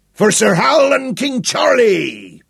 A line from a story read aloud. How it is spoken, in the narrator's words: Big Daniel roared